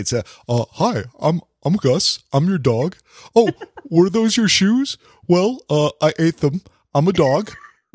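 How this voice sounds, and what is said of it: Silly character voice for a dog. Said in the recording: “give us a little bit of Gus's voice ... I'll do the actual voice that we do for you”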